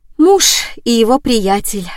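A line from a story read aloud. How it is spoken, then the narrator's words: Sighing. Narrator (Russian): вздохнула я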